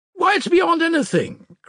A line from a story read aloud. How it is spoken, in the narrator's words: cried Musav, suddenly breaking out